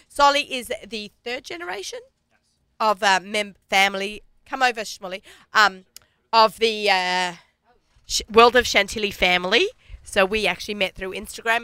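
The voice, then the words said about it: Speaks with a noticeable accent. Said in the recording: “Everything sounds funny with my accent.”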